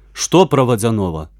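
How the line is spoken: Impatient exclamation. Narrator (Russian): нетерпеливо воскликнул Веня

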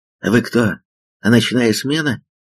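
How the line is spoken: Asked, then quiet uncertain laugh. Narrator (Russian): спросил он и тихо, неуверенно засмеялся

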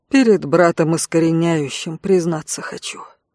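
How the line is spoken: Deep chest voice. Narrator (Russian): глубоким грудным голосом произнесла

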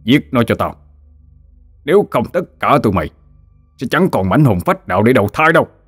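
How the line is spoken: Shouting. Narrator (Vietnamese): hắn hét lên

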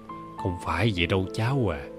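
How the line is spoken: Pensive, soft tongue-click. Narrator (Vietnamese): Bà Sáu trầm ngâm một hồi, rồi khẽ chép miệng

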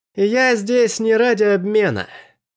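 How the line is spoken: Shouting. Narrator (Russian): прокричал Андерс

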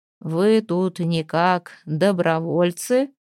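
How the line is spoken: Rumbling bass, desperate hope. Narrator (Russian): осведомился он ракочущим басом, и Кокрину показалось, что в его голосе звучит отчаянная надежда

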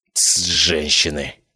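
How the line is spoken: Grumbling. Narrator (Russian): проворчал я

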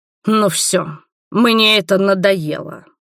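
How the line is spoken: Growled. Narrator (Russian): прорычал Роберт

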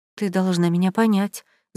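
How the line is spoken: Mumbling. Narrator (Russian): забормотала Анаста

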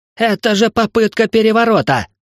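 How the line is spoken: Cornered man yelling. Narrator (Russian): завопил прижатый к стене интриган

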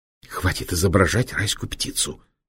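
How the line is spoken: Angry hiss. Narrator (Russian): сердито прошипел доктор

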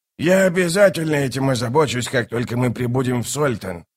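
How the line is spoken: Muttering. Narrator (Russian): пробормотал он

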